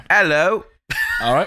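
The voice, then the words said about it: Put-on British chimney-sweep accent. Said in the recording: “Like, I'm going to do the British accent ... looks like we've got uh, who was it? The chimney sweeper from Mary Poppins, Dick Van Dyke”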